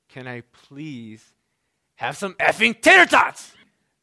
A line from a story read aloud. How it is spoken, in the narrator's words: so frustrated yelled at her